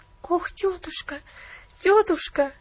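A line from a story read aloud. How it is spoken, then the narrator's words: Tearful pleading. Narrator (Russian): взмолилась Пуляна со слезами на глазах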